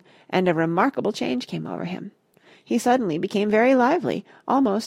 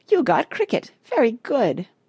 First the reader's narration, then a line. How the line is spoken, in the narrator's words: He was laughing delightedly